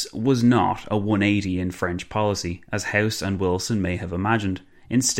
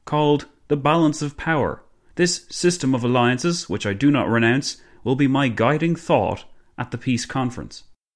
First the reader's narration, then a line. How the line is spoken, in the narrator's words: Clemenceau boomed